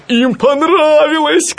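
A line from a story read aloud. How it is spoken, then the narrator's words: Shouting. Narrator (Russian): кричал он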